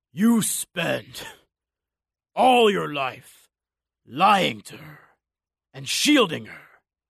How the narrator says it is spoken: the Cyclops' voice rasped out through blood and spittle

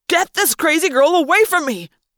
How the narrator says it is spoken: Jeremy Jason cried

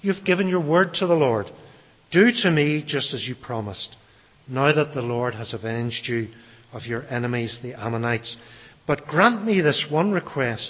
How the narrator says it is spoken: she said

